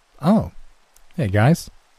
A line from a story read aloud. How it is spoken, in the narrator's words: he said kindly